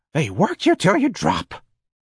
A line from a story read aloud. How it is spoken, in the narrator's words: Miss Trixie wheezed